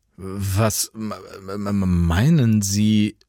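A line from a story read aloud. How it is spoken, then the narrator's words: Irritated stammer. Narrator (German): stammelte irritiert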